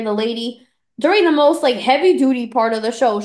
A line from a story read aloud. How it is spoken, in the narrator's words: she yells out to Nicole